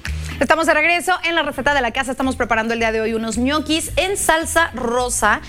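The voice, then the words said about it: Northern Mexican Spanish accent. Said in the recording (Spanish): “¿Y volviste a sacar tu acento norteño? ... sí me salió.”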